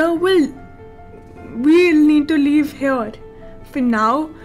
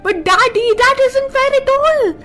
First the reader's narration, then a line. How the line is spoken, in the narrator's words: shouted as they ran through the hall